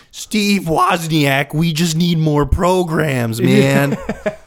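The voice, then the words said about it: Imitates another person's voice. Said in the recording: “my Ashton impersonation? ... It was pretty good.”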